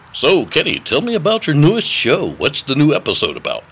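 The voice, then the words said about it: Canned radio-announcer voice. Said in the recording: “use the radio voice ... they'll know it's canned garbage. It's not me.”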